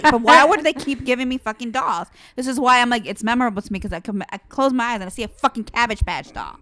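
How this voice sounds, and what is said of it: Angry-sounding delivery. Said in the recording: “do I sound so angry?”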